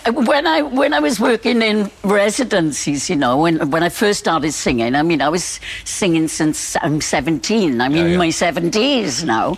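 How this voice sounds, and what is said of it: Very strong Welsh accent. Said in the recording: “my very, very strong Welsh accent ... As you can hear, it didn't work.”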